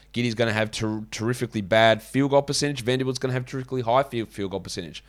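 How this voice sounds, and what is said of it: Hoarse, sick-sounding voice. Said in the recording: “You are sounding sick. ... I have a sore throat and my voice is going a little bit. ... my voice is gone and my nose is ... It just sounded a bit off.”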